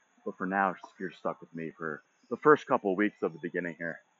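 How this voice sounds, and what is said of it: Out of breath, panting speech. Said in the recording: “I'm out of breath, too. I'm a mess, guys. Jeez. Just walking.”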